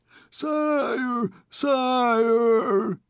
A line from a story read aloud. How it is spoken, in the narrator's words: he cried in despair